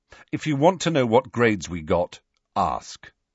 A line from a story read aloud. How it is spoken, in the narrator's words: said Ron sharply